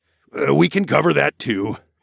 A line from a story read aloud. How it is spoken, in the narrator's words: Darwin sighed